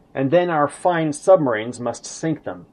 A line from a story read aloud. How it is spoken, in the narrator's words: Hitler irritably interrupted